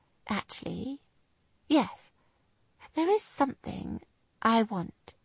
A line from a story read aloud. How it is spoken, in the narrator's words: she stated softly and very precisely